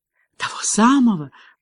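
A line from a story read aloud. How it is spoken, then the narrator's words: Whisper. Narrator (Russian): прошептала Меган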